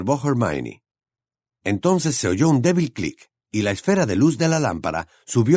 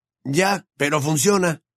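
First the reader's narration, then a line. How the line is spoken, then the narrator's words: Somewhat defensive exclamation. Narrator (Spanish): exclamó Ron un poco a la defensiva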